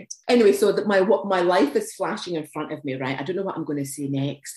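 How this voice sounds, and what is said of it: Fast Scottish accent. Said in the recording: “my very fast Glaswegian / Edinburgh accent”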